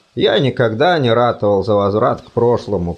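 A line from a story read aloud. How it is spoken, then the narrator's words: Muttered. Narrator (Russian): пробормотал заведующий кафедрой беспредметных изысканий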